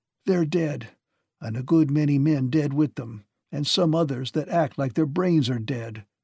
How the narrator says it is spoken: said Sawyer thickly

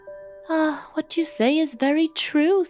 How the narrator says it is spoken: said the wife, with a sigh

